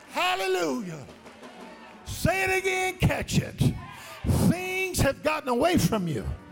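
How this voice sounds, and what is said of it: Screaming. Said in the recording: “I won't scream much louder than I'm screaming right now”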